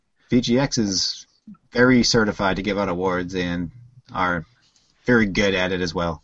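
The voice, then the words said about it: Sarcastic delivery. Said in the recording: “That's a joke. ... It was sarcasm.”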